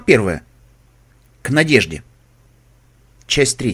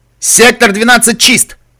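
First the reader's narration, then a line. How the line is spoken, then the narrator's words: Barked over headset. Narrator (Russian): гаркнул голос из наушника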